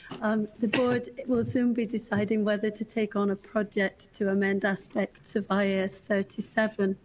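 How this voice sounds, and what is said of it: Hoarse, fading voice. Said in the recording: “I'm losing my voice”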